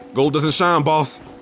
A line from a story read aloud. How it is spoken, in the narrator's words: I yelled back